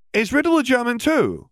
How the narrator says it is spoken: Hermione asked, speaking more loudly this time

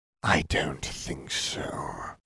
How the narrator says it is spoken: Voldemort whispered

